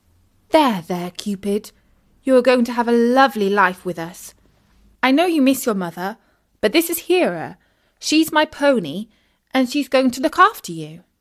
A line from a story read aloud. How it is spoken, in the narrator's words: Isis said soothingly